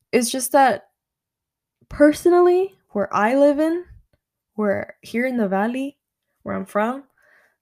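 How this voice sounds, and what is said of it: Texan accent. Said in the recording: “I sounded so Texan right now.”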